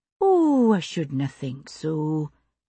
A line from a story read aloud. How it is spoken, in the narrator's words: Jenny said soothingly